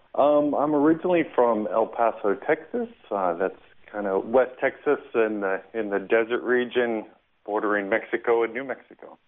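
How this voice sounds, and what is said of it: Noticeable regional accent. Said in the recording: “I love the accent.”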